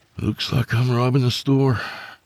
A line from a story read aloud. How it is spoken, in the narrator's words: he sighed